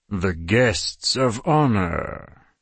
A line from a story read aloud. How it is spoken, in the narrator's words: he said, his voice as resonant as a men's chorus speaking in unison